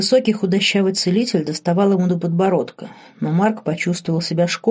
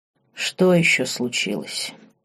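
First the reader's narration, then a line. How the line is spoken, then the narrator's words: Weary question. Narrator (Russian): устало спросил герцог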